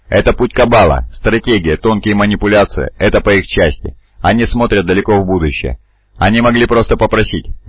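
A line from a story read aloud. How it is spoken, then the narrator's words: Laughing. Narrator (Russian): Грамматикус рассмеялся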